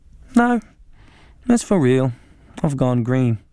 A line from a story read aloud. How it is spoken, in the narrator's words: Mum replied calmly